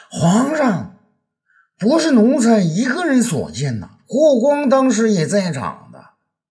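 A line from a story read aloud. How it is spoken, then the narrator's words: Shouting. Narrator (Chinese): 李延年却大叫起来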